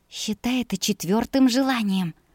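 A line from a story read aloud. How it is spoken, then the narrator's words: Whisper. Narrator (Russian): прошептала я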